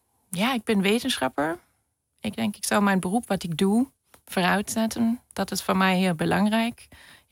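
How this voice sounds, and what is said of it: Noticeable accent. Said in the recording (Dutch): “Je hoort waarschijnlijk een accent”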